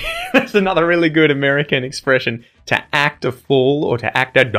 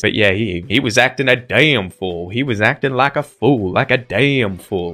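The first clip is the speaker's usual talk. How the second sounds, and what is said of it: Put-on American accent. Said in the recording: “my American accent”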